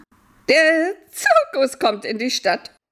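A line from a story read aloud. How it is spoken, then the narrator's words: Children shouting. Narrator (German): schrien die Kinder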